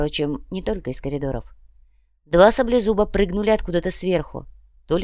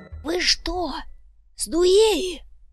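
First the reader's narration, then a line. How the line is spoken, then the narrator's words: Hissed. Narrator (Russian): прошипел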